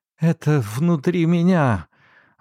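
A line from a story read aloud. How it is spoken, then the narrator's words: Breathed out. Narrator (Russian): выдохнула она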